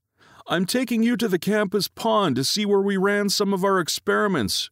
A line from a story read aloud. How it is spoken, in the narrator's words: thunders back